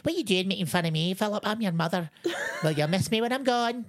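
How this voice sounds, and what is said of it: Impression of a Scottish mother. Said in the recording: “My little Scottish mum, she's one of these wee Scottish church ladies ... Is that a good impression?”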